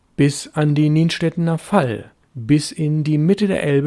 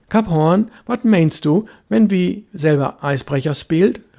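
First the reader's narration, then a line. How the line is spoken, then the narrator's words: Called out. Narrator (German): rief er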